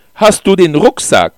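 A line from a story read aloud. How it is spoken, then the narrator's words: Loud question. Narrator (German): fragte ich laut, damit sie mich hören konnte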